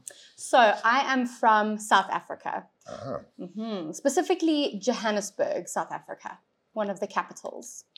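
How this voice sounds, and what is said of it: South African accent. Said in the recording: “Brittany has a bit of a different accent than I do”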